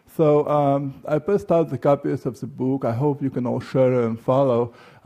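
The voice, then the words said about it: Heavy Russian accent. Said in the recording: “I speak with a very heavy Russian accent”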